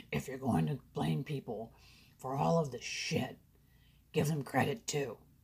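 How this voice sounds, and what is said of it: Poor imitation of another person's voice. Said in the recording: “maybe I should do it in Tony Robbins' voice ... That's not a very good Tony Robbins impersonation.”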